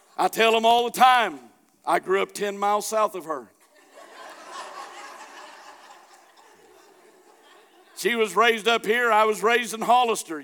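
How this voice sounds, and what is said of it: Southern American accent. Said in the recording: “I got a Southern accent ... such a hicky Southern accent”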